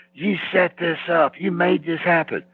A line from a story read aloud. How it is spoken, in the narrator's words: he's screaming at Vince